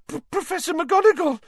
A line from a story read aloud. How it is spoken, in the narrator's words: Hermione gasped